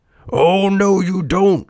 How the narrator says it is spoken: shouted Geppetto

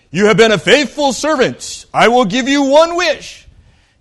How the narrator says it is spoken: a booming voice said

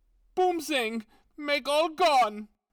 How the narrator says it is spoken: howled Herr Braun

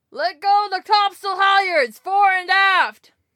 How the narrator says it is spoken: shouted the captain in answer, at the top of his voice

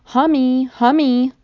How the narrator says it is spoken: a little voice called out

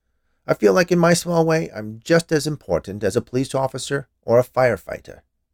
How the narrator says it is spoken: he said, in a somewhat defensive tone

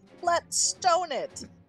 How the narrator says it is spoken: he yelled

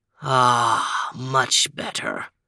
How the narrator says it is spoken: sighed Overton

